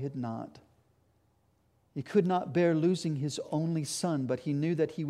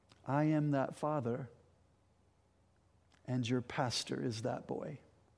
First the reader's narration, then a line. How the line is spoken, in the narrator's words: the old man looked kindly at them and said